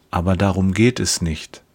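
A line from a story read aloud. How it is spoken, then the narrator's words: Gentle speech. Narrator (German): sagt er sanft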